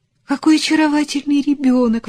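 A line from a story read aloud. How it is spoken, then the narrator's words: Exclamation. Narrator (Russian): воскликнула Луиза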